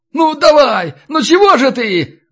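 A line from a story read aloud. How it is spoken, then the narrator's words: Howling. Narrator (Russian): взвыл рыжий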